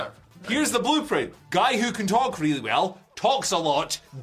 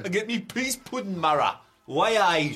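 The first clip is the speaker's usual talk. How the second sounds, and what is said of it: Put-on Geordie accent. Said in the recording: “Why do we do that in a Geordie accent? ... Should we do the entire news in Geordie?”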